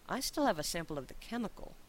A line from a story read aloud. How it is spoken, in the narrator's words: said quietly